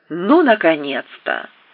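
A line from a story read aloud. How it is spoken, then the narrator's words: Reproachful exclamation. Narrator (Russian): воскликнула она таким тоном, будто я назначил ей здесь свидание, а сам опоздал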